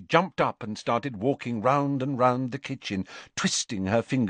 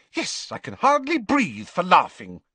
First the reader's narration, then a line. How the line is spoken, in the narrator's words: snapped Hermione